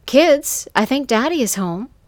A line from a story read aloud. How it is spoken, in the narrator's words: I said